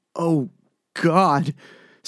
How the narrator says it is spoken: Stu stammered

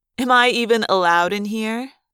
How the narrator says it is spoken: She asked mockingly

